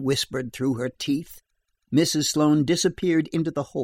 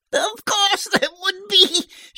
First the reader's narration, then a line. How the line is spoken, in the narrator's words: she broke into another fit of giggles